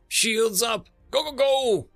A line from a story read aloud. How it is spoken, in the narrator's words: Bradford shouted